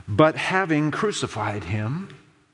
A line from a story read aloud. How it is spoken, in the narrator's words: Mark says